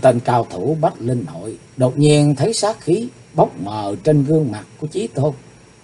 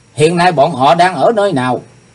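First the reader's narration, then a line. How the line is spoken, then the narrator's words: Murderous loud shout. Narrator (Vietnamese): sát khí đã lẫy lừng trên gương mặt của Chí Tôn, chàng quát to lên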